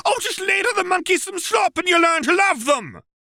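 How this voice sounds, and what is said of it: Mocking, vaguely accented falsetto voice. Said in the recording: “went off in a vaguely accented falsetto”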